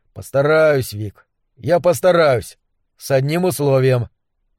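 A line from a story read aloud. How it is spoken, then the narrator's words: After a big trembling sigh. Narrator (Russian): Он вздохнул, огромный подрагивающий поток воздуха, и сказал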